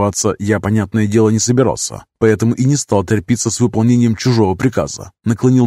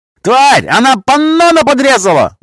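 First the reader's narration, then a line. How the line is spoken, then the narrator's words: Sudden yell. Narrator (Russian): Вдруг заорали справа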